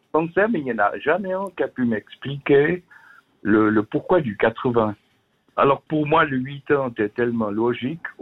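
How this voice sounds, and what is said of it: Swiss French Vaud regional accent. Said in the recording (French): “vous êtes du côté du canton de Vaud, c'est ça? ... Avec l'accent que j'ai.”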